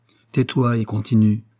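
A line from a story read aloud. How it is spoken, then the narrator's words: Muffled low voice. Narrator (French): répondit le lieutenant Hobson d'une voix sourde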